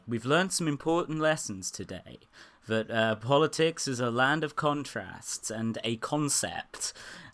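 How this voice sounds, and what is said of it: Weak generic American accent impression. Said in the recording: “very, very generic, like, Brit tries to do an American accent and fails”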